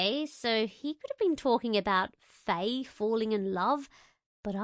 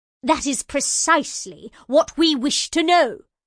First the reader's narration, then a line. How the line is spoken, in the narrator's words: snapped the golden Faye